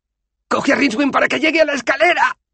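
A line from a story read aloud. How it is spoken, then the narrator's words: Shouted. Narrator (Spanish): gritó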